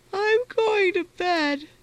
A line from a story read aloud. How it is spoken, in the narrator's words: said yawning